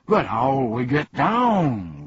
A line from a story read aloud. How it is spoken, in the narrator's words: groaned the humbug